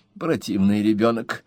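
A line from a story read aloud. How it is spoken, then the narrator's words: Muttering woman. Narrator (Russian): пробормотала миссис Клаппинс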